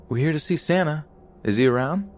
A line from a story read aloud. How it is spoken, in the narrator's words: in my cheeriest voice I ask